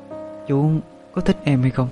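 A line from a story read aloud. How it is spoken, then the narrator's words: Soft question. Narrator (Vietnamese): cô khẽ hỏi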